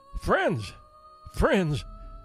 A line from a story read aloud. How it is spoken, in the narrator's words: exclaimed the dying son of genius